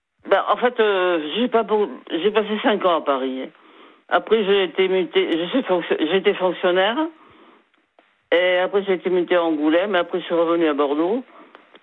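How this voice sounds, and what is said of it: Slight southwestern French accent. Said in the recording (French): “j'entends le petit accent du sud derrière ... on l'entend, là, vous avez une petite intonation du sud-ouest”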